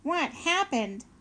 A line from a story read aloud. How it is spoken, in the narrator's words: shouted Roz